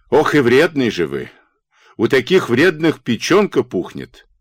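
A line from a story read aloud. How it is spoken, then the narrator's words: Angry, choking on words. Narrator (Russian): Сердито, давясь словами, как костью, говорил кому-то Карпо Варчук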